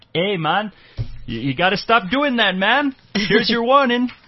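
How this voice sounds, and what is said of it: Poor put-on Canadian accent. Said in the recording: “Horrible Canadian accent”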